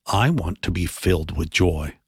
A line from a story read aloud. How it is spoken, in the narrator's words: Maria whispered